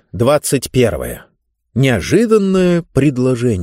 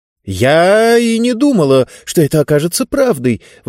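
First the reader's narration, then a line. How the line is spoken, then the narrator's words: Woman exclaiming. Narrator (Russian): воскликнула женщина по имени Виктория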